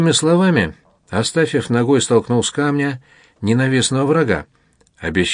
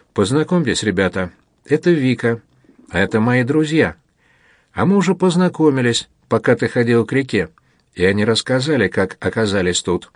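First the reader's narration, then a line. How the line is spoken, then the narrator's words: Plain. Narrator (Russian): ответила Вика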